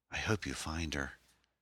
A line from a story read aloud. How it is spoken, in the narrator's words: said softly